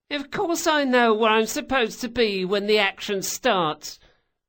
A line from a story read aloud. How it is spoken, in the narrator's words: Bug whined